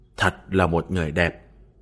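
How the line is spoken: Dazed muttering. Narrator (Vietnamese): Thương Lão Thái hé cặp mắt ảm đạm đứng ngẩn người ra, miệng lẩm bẩm

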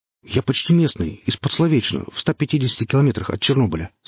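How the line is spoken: Plain. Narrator (Russian): сказал Алексей

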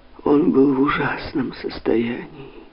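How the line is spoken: Widow's moan. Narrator (Russian): простонала вдова Гароны

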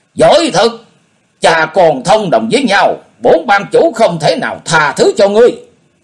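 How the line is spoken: Injured, loud shout. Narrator (Vietnamese): Quái Cơ Hùng bị thương chưa khỏi, quát lớn

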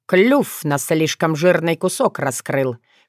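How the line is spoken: Snort to himself. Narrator (Russian): хмыкнул про себя Филипп

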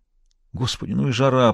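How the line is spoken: Moaning. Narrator (Russian): простонала она

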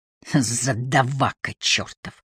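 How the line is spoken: Hiss. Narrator (Russian): прошипел Воллер

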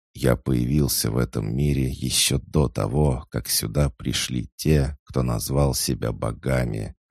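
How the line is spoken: Plain. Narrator (Russian): ответил черный генерал

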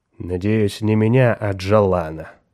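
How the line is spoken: Grim reply. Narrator (Russian): мрачно ответил Меррик

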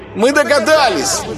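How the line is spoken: Women shouting in chorus. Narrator (Russian): Хором закричали невесты

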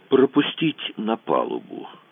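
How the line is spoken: Quiet command. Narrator (Russian): распорядился Кацуба тихо

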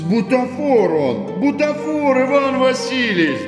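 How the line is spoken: Groaning plea. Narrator (Russian): Застонал Фома

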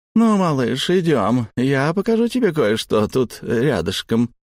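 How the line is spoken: Cooing. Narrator (Russian): проворковала та

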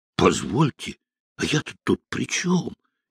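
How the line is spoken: Frightened. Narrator (Russian): испуганно Машин

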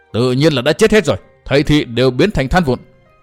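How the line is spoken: Sudden furious yell. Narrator (Vietnamese): lão ta bỗng giận dữ hét lớn

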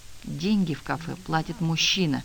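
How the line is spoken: Whisper. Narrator (Russian): прошептала я

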